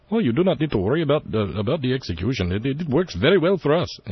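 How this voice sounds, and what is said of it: Put-on Indian-ish accent. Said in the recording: “I guess that's kind of an Indian accent.”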